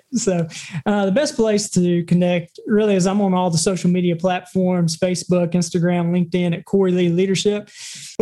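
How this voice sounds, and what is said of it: Southern American accent. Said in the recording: “tolerate the Southern accent”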